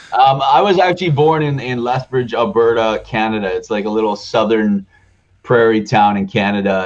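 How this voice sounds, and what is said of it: Southern twang. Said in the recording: “southern twang”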